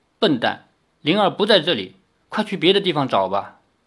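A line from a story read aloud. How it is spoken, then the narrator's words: Cold, holding back tears. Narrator (Chinese): 林月如好不容易控制住心海的波涛，抹去眼泪，冷冷地说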